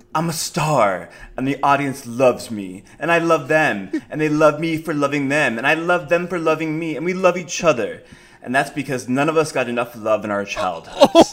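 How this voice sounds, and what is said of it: Dramatic theatrical reading voice. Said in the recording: “I'm going to read them to you in a dramatic voice. ... Beautiful line reading.”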